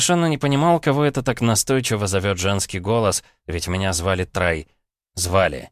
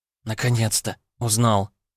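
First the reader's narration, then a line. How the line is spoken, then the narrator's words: Relieved exhale. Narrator (Russian): с облегчением выдохнула Светлана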